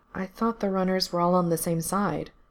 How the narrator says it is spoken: Gerard said quietly

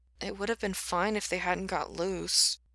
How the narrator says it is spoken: he mumbled

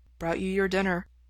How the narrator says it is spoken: Ray says softly

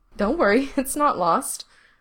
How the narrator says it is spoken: Gerard says on another giggle

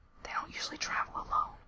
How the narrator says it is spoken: Gerard whispered back

